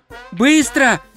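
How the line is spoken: Shout. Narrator (Russian): крикнул

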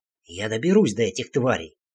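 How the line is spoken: Hissing. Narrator (Russian): прошипел я

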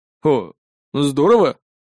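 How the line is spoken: Uncertain young man. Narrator (Russian): неуверенно ответил парень

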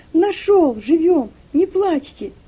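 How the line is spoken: Shout. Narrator (Russian): крикнул Игнат

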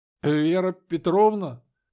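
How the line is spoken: Strained, forced out. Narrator (Russian): наконец выдавил он

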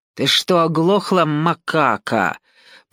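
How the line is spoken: Hissing. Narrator (Russian): прошипел долговязый

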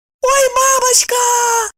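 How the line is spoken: Squeak. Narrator (Russian): снова пискнула Евдокия

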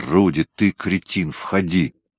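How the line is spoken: Growling. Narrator (Russian): Патмар прорычал

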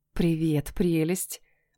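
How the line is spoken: Whispering. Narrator (Russian): прошептала я

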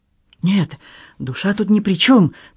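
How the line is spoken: Hurried objection. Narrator (Russian): торопливо возразил Даффит

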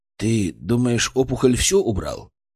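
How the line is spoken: Plain. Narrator (Russian): спросил Артем

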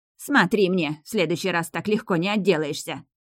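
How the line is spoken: Barked. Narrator (Russian): рявкнула госпожа Брунхильда

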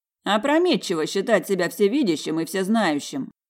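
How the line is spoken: Mocking brother. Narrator (Russian): насмешливо произнес брат

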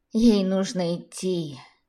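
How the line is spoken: Sighing. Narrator (Russian): вздохнула Лидия Николаевна

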